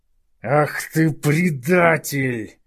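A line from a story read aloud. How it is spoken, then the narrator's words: Howled. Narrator (Russian): взвыл Ювенис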